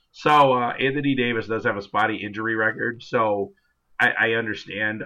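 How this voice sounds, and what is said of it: Hoarse voice, cracking like puberty. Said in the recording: “I'm still losing my voice, by the way, so that little puberty hiccup you heard, that's actually happening.”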